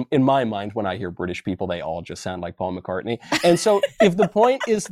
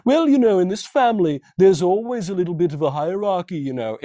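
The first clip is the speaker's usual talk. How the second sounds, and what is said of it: Imitated British accent of Prince Harry. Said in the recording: “My accent's not that great.”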